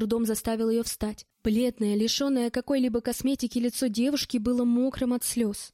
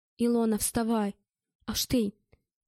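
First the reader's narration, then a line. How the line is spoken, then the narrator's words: Mumbled nonsense. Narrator (Russian): бормотал я какую-то ахинею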